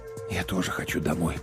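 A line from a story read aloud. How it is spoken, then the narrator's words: Whisper. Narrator (Russian): прошептал я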